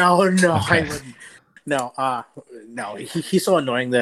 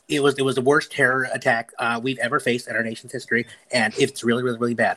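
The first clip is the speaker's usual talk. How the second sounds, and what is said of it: Imitates another person's voice. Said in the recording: “great Ben Shapiro impression ... He's the most easily imitatable person on the planet.”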